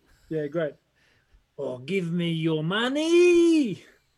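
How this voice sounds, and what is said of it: Rough, threatening Peaky Blinders-style voice. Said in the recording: “I wanted to have like a Peaky Blinders kind of rough kind of thing ... It just came across very threatening”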